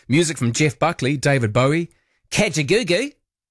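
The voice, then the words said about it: Put-on Australian accent. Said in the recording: “I said that with an Australian accent”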